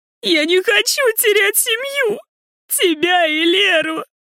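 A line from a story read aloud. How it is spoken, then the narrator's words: Heavy sobbing. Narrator (Russian): Опять рыдает навзрыд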